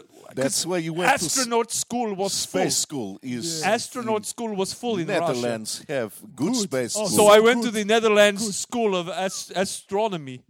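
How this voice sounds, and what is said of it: Put-on Dutch accent. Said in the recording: “you sound Dutch”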